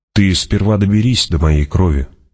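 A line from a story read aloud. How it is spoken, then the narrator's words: Said calmly. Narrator (Russian): спокойно сказал он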